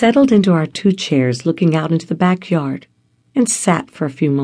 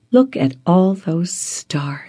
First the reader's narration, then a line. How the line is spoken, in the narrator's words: sighed